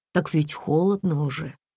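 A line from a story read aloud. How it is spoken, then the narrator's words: Uncertain. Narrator (Russian): неуверенно сказала Татьяна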